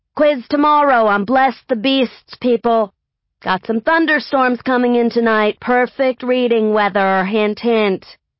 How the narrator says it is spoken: Miss Soper, my language arts teacher, hollered out

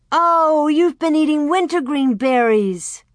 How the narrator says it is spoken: Alice, she cried out

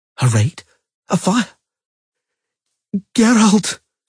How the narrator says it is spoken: Ciri suddenly groaned, becoming as white as vellum

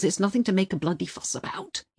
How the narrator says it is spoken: he mumbled

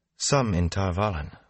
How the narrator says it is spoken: Moraine said quietly

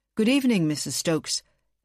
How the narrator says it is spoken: Anthony said

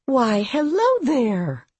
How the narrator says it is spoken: she said brightly

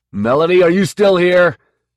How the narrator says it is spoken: he yelled

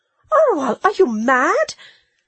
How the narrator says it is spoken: cried Psyche

